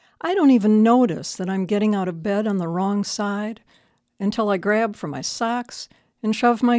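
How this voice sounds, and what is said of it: Usual voice. Nothing is said of it.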